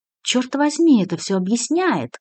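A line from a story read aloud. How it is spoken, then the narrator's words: Joyful. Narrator (Russian): радостно произнес Абрамшис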